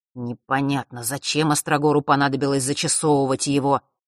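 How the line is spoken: Muttered again. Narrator (Russian): вновь пробурчал он

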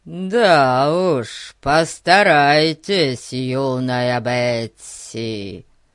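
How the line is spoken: Deep bass voice. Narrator (Russian): басом произнес Фати

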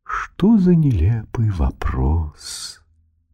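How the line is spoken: Majestic drawl, swan. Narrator (Russian): Величаво протянул лебедь

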